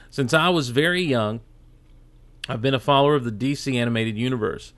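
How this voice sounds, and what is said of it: Southern American drawl. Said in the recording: “my southern drawl is really coming out”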